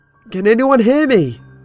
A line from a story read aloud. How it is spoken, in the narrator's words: I screamed